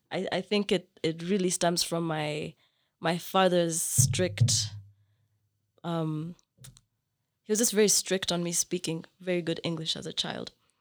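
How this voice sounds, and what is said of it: Somewhat British-sounding, hard-to-place accent. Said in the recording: “it's more British, or it's more, it's just different. Like they couldn't place it. ... this accent or like this way of speaking”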